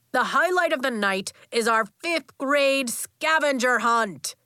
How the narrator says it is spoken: Coach shouted

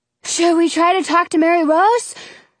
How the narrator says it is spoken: Jonah gasps

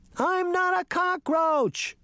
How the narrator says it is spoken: she shouted

